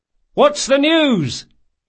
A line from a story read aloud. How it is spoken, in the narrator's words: Locke cried